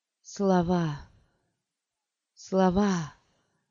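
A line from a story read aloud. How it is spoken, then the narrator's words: Muttering. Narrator (Russian): Бормотала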